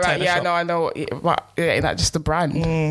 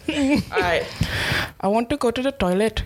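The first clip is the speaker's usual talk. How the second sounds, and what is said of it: Put-on Indian accent. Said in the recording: “That is definitely meant to be some sort of Asian accent... Indian, I'll be going with. Bangladesh... You even did a head movement as well. That's meant to be Indian, isn't it?”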